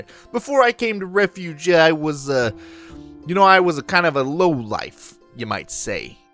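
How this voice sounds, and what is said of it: Put-on Boston accent. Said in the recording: “let me get this accent right ... I'm going with Boston.”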